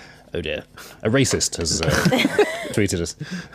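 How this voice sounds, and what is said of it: Usual voice. Nothing is said of it.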